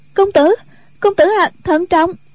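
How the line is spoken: Frightened cry. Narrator (Vietnamese): Tiểu Chiêu thân sắc sợ hãi kêu lên

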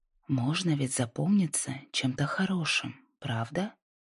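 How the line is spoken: Soft, slightly disbelieving. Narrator (Russian): мягко сказала она, все еще немного не веря, что Лайза открывается ей

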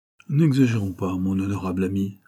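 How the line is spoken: Plain. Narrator (French): répondit Morgan

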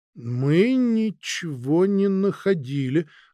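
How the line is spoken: Slow, cautious reply. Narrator (Russian): ответил медленно, точно соображая, а не проболтался ли случайно

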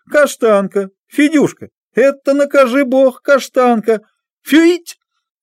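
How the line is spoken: Loud child and man calling. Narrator (Russian): два голоса, один детский и другой мужской, громко позвали

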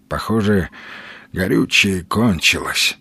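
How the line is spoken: Sighing. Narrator (Russian): вздохнул сталкер

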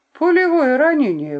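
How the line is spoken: Exclaiming. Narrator (Russian): воскликнул он

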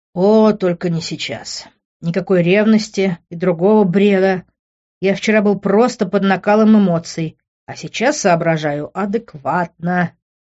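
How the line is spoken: Inner groan. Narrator (Russian): мысленно простонал я

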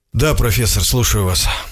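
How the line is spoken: Sleepy mumble over phone. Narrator (Russian): сонно пробормотал я в трубку

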